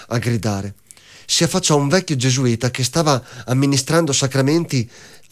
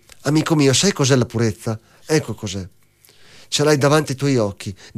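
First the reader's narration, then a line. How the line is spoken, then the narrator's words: Plain. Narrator (Italian): disse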